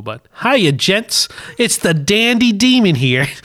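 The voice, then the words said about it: Put-on accent, poorly done. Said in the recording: “my accent is horrible”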